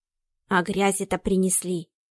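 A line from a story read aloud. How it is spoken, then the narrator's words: Quiet but audible old woman. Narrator (Russian): Тихо сказала старая служанка, но слышно было всем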